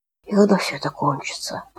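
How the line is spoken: Whispered. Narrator (Russian): прошептал Коля

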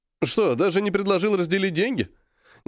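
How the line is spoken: Sudden laughter. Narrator (Russian): Неожиданно расхохотался Серый

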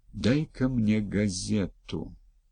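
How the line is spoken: Barely audible. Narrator (Russian): еле слышно произнес Виктор

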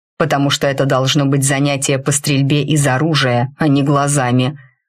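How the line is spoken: Growled in reply. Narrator (Russian): рыкнули мне в ответ

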